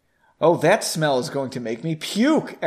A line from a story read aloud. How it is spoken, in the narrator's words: Aaron exclaimed